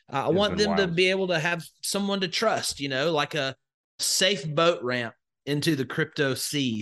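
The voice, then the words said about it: Southern US accent. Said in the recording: “I've got a bad Southern accent here”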